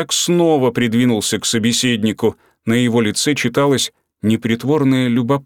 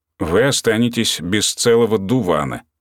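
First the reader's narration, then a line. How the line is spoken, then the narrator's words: Calm reply. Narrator (Russian): спокойно ответил Ратман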